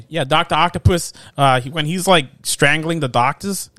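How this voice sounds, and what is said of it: Put-on Boston or Long Island accent. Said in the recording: “I don't know why I'm doing that accent. I don't know. Oh, is that Boston? ... I think it's Long Island.”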